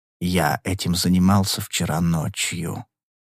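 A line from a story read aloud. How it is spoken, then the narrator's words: Quiet old man. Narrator (Russian): тихим голосом сказал старик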